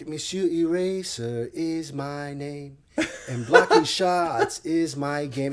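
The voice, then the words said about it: Mock French accent, sung. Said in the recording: “he would do this French accent, ironically”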